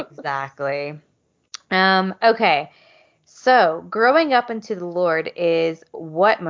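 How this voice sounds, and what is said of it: Usual voice. Nothing is said of it.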